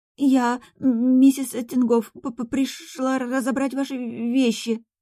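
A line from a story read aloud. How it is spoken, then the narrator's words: Trembling voice, young woman. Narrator (Russian): дрожащим голосом произнесла девушка в белом чепчике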